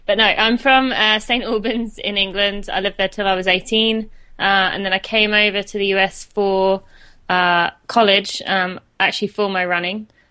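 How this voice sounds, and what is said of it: British English accent. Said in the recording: “I have a British accent ... most of the time I get asked if I'm Australian”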